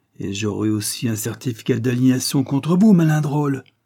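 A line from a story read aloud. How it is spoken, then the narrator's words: Tall woman bellowing. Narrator (French): vociféra la grande femme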